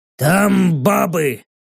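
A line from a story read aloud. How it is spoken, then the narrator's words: Growling. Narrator (Russian): рыкнул стоящий с багром на носу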